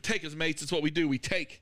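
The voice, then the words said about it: Put-on accent. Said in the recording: “Oh, an accent.”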